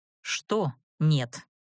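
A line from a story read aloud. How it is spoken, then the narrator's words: Menacing question. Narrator (Russian): грозно уточнила я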